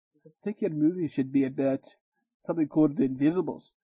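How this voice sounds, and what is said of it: Low Scottish accent impression. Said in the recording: “do his accent. You can't do it without the accent ... He has a low Scottish accent.”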